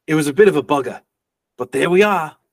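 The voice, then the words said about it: Put-on accent. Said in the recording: “You're welcome for the accent”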